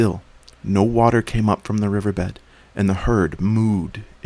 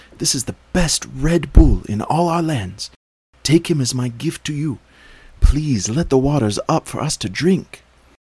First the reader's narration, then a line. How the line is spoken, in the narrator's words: cried the boy